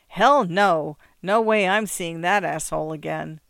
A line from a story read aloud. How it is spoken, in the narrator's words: she laughed, saying